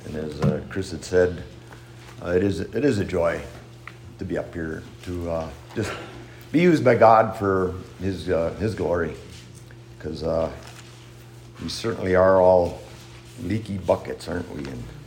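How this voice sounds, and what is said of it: Scratchy, rough voice. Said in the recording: “My voice is a little bit scratchy and rough”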